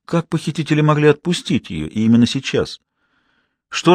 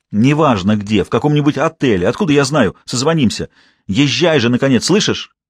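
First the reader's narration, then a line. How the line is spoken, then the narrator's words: Sharp impatient shout. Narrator (Russian): Прикрикнул, поскольку все еще не улавливал шума мотора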